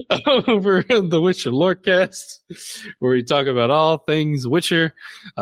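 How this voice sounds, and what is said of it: Put-on accent, shifting. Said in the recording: “Yes, I'm doing an accent. It's already changed three times.”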